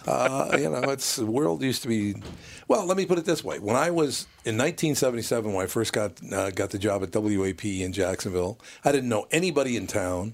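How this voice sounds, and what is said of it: Raspy deep radio voice. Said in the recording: “You have a fantastic radio voice. ... it's because of the raspiness of my voice. ... you sound like a black guy”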